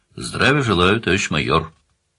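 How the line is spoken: Serious, dry, officious tone. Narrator (Russian): бабуля, как обычно в том же Шантарске, ответила вполне серьезно, сухо, значительным тоном службистки

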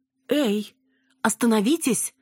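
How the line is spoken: Exclamation. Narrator (Russian): воскликнула Цветкова

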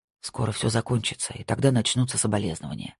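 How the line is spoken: Muttered. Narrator (Russian): пробормотал Марк

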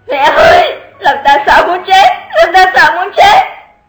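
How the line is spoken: Loud frightened wail. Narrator (Vietnamese): Lục Tiểu Thanh ngã phịch xuống đất, há mồm gào to

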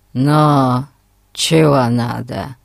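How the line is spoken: Grumbled. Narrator (Russian): проворчал он

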